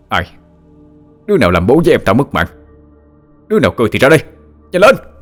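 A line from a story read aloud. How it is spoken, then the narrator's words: Frantic shout. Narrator (Vietnamese): như không còn ý thức được bản thân mà vội quát lên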